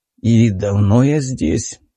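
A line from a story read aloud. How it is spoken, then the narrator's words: Creaky hoarse rasp. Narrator (Russian): скрипуче прохрипел мой голос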